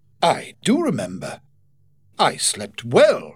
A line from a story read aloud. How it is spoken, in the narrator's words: exclaimed Blake